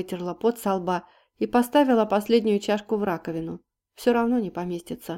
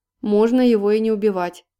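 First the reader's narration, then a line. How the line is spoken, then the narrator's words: Deep bass voice. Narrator (Russian): пробасил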